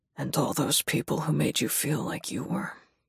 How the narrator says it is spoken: he says huskily

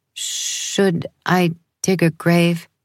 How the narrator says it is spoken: My voice faltered

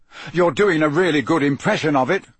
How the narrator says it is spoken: Harry snapped

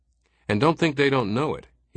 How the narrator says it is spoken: he said

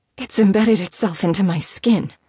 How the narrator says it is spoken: she breathed out unsteadily

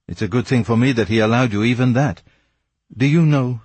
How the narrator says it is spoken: said Raoul bitterly

